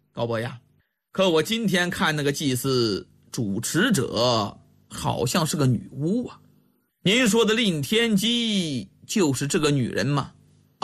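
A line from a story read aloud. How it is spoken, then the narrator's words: Smiling question. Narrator (Chinese): 李元芳笑着问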